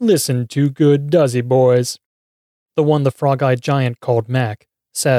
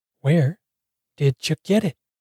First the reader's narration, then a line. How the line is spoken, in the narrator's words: Mac whispers